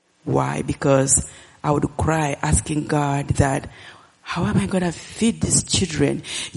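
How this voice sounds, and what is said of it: Ugandan-accented English. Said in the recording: “because of my accent ... the Ugandan lady”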